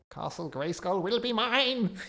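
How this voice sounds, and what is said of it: Good impression of weird cartoon voice. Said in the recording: “that's a good impression. He had a really weird voice.”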